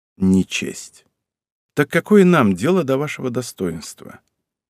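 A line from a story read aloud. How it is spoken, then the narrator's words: Sighing. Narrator (Russian): вздохнул, так ничего и не дождавшись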